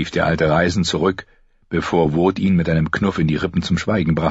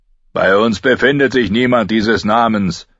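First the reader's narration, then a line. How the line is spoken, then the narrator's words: Calling back. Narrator (German): rief Joren zurück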